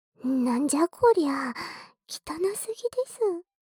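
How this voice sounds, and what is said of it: Whispering. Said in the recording (Japanese): “僕のささやき声がくすぐったかった”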